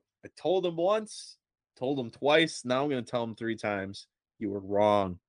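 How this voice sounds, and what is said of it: Usual voice. Nothing is said of it.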